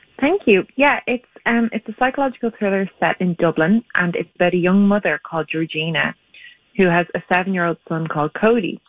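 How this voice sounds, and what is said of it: Irish accent. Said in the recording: “your accent”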